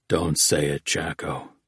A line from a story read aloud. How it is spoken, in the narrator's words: Oates told him softly